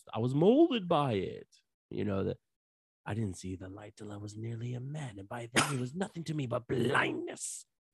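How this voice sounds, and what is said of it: Film villain voice, poorly done. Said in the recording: “we gotta work on the accent ... You sound like Kermit the Frog”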